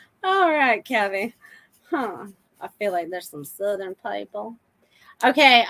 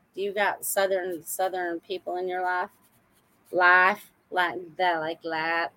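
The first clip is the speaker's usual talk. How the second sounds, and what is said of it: Put-on Southern accent. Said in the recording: “talking all Southern”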